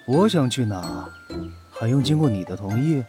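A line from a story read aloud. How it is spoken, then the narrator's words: Irritated, flat voice. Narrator (Chinese): 轩辕离没好气地，声音平淡如水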